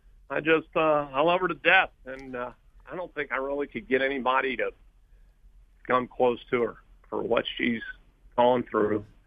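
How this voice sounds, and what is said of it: Choked-up, emotional voice. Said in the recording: “I'm sorry to get a little choked up here”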